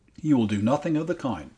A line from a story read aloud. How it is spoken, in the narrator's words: said Miss Oliphant sharply